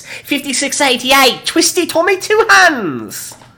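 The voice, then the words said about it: Silly put-on voice. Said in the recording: “read this in a stupid voice.”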